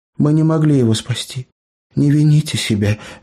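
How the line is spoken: Girl, soft urging. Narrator (Russian): мягко увещевала Эбера девушка

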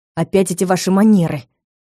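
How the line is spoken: Hissed. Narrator (Russian): прошипел

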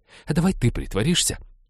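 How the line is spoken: Sharp interruption. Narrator (Russian): резко перебила она Натана

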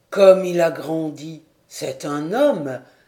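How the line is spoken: Delighted exclamation. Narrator (French): s'écriait-il avec ravissement

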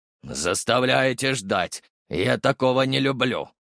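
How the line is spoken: Hissed through teeth, irritated. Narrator (Russian): процедил лейтенант

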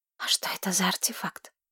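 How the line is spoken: Whispered. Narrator (Russian): прошептала Тамира

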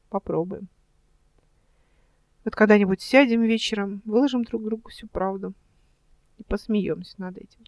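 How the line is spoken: Quiet. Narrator (Russian): тихо сказала она

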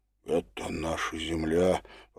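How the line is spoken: Whisper. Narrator (Russian): прошептал Демид

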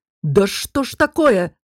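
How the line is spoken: Bark. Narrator (Russian): рявкнул Дестон

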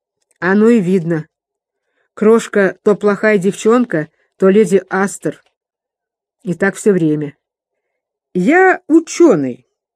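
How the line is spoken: Stern, lecturing, slurred. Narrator (Russian): строго и назидательно выговорил мсье Пипин заплетающимся языком

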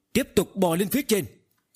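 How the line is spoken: Sudden loud shout. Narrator (Vietnamese): Tần Mục đột nhiên lớn tiếng thét lên

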